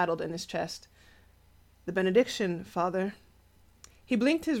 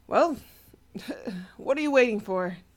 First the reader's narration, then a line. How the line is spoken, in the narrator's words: He chuckled weakly